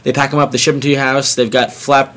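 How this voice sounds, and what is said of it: Sudden unexpected put-on accent. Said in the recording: “wow, where did that accent come from?”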